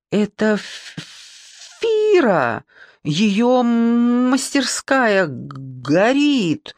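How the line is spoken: Stuttering shout. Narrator (Russian): Снова заикаясь, выкрикнул Одя

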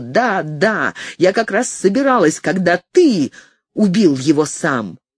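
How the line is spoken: Sudden trembling scream. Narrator (Russian): Совершенно неожиданно я затряслась и закричала

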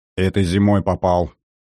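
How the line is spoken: Gloomy. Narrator (Russian): мрачно произнес тот

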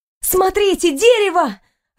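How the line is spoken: Joyful shout. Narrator (Russian): радостно закричала я

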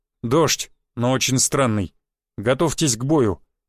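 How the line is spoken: Grim. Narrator (Russian): мрачно произнес Буян

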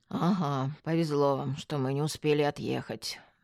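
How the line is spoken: Gloomy grumble. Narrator (Russian): мрачно буркнул полицейский

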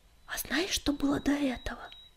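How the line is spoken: Soft tender whisper. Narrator (Russian): негромко, но очень ласково прошептала песчаная буря

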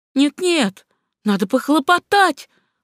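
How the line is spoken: Exclaimed. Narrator (Russian): воскликнула госпожа Дезаньё

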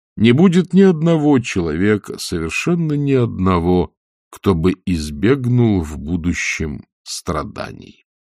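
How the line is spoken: Sigh, meaningful tone. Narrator (Russian): Он вздохнул и многозначительно сказал

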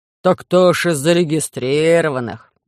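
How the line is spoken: Sudden deep bass voice. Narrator (Russian): Неожиданно пробасил Муа, Му, в общем-то, Урин

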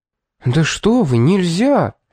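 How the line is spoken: Horrified exclamation. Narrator (Russian): в ужасе воскликнула служанка

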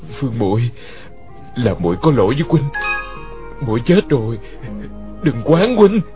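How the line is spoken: Trembling voice. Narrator (Vietnamese): giọng run run

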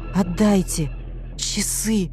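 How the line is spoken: Wheezed in two breaths. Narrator (Russian): Двумя выдохами просипел Ножкин

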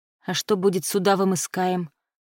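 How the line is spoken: Quiet question. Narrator (Russian): тихо спросила наемница

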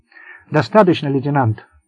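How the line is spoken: Sharp interruption. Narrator (Russian): резко оборвал его Болан

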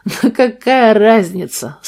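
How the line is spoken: Laughing again. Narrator (Russian): снова рассмеялся Арт

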